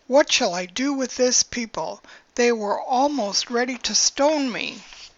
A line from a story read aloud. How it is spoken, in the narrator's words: Moses cried to the Lord